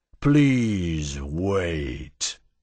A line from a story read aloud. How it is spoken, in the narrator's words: the voice rumbled, sounding like a distant landslide